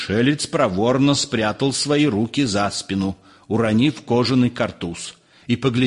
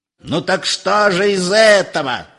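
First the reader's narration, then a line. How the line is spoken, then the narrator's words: Yelling. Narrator (Russian): завопил Персиков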